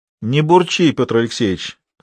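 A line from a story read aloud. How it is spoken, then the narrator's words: Wry grunt. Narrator (Russian): хмыкнул Едыкин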